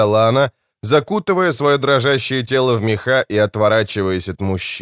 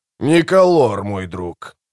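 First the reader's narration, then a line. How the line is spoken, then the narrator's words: Grumbled. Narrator (Russian): проворчал Кол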